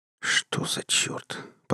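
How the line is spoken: Whisper. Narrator (Russian): прошептал я

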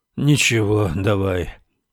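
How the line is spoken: Sad, restrained reply. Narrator (Russian): печально ответил Рекс с проблеском былой выдержки

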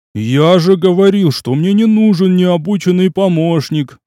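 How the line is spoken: Groaning again. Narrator (Russian): вновь застонал Кадим

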